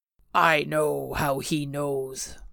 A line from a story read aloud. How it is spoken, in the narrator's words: Mako growled in a hushed, deadly whisper